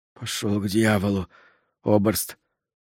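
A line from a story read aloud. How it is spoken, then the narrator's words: Through clenched teeth. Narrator (Russian): сквозь зубы, тоже на немецком, бросил узник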